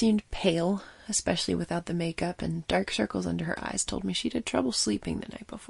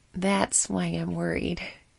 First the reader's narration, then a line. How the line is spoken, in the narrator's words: she chuckled